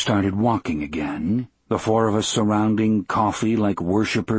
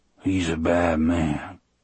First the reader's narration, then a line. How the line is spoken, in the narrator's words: Coffee said, but in a lower voice this time, as if he was not quite sure of what he was saying or what it meant